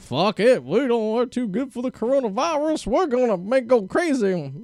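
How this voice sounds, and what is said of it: Weak Southern accent impression. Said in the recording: “my Hank Hill impersonation ... That was the weak impression that was not the accent ... make fun of Southerners”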